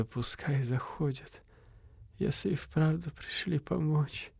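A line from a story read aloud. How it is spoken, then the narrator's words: Weak whisper, mother. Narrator (Russian): мать прошептала слабое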